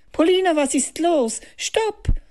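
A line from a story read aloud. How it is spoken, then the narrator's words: Exclaiming. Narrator (German): rief Benedikt aus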